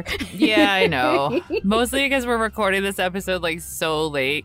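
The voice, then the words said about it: Sick, raspy voice with vocal fry. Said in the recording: “I'm sure everyone can hear from my voice ... my vocal fry ... I was quite sick ... I sound better than I did 2 days ago”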